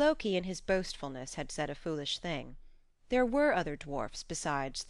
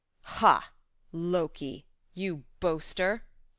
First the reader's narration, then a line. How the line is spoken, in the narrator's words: roared